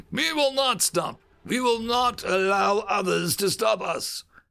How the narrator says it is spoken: he continued gruffly

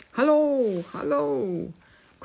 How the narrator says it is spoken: cried King Pellinore

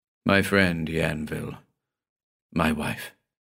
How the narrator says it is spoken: he said in a low voice

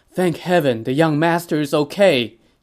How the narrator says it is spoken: Zhao Yun exclaimed

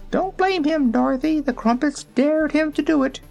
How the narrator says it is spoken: Billina called out

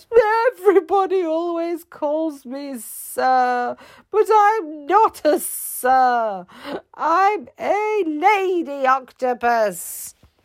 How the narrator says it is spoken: the octopus sobbed a bit and she said

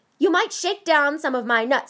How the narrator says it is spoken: he barked

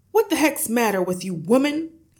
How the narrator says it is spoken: shouted

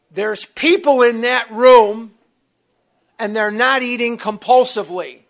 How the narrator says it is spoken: he told me very loudly in my ear, he said

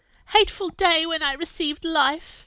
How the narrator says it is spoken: I exclaimed in agony

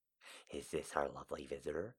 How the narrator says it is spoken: He asked with a lisp

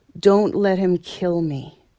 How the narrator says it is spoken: she said

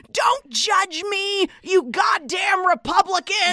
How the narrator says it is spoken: she's yelling

